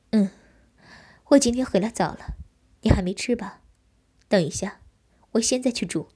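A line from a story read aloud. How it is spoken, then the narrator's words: Light laugh. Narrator (Chinese): 我轻笑道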